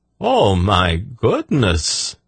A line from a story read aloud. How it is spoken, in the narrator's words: Zadi exclaimed